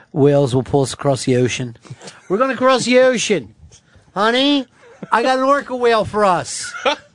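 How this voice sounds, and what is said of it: Heavy put-on Philly accent. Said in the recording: “a, a, fucking heavy Philly accent”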